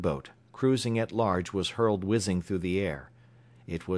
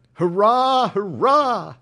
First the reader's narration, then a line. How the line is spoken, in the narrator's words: cried the whole crew of the Dolphin unanimously